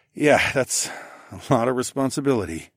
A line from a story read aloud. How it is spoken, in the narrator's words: I sighed